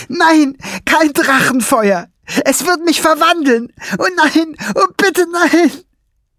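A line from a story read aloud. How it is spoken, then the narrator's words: Shrieked. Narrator (German): kreischte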